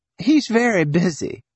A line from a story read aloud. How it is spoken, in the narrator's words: said, could almost hear the laughter